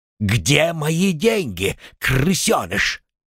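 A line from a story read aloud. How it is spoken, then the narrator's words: Growl right in face. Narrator (Russian): Прорычал он прямо в лицо бедняге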